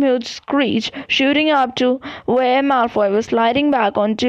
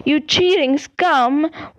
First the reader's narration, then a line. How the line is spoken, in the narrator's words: Lee Jordan was howling into the megaphone